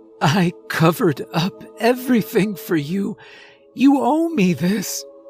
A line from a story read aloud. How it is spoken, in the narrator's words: he whimpered